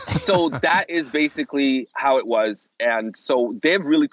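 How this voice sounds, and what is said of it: Usual voice. Nothing is said of it.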